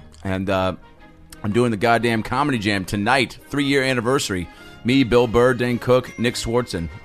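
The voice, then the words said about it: Weird-sounding voice, sore throat. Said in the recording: “my voice sounds weird. I got some lozenges in. I'm trying to rest this voice. My throat's a little fucked up.”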